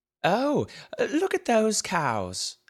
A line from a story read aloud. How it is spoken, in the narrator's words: exclaimed the aunt